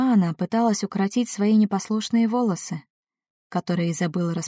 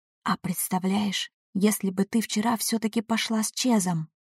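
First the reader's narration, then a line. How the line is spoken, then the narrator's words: Meaningful whisper. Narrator (Russian): шепнула мне Бекки многозначительным тоном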